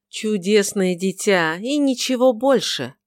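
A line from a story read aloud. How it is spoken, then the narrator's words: Plain. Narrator (Russian): ответила миссис Марвел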